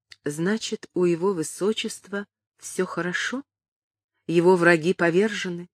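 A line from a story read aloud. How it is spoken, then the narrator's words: Quiet. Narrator (Russian): тихо сказала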